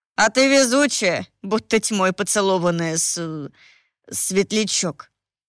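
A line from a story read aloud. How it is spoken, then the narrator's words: Hesitant, faltering young man. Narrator (Russian): Запнувшись, сказал парень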